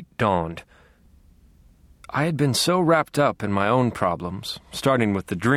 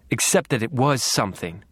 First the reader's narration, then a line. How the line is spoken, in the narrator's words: snarled